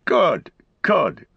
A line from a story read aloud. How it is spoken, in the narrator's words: cried Farmer Cotton